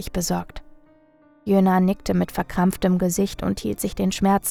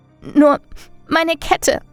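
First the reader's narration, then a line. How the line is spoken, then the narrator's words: Sobbing. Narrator (German): schluchzte sie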